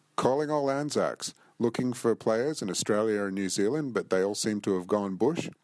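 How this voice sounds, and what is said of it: Speaker with an accent. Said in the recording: “He would have an accent. Accent.”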